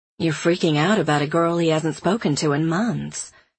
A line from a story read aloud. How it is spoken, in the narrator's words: Caroline says